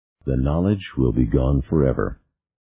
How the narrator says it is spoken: Norman said quietly

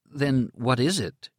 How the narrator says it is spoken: Shayla asked timidly

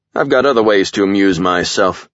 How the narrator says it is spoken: Stevens chuckled

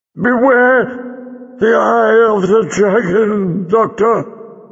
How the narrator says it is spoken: He cried

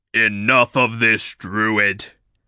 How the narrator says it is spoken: Jupiter growled

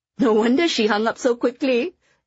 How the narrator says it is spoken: Eleanor giggled

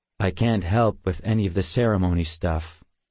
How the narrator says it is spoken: Arch said

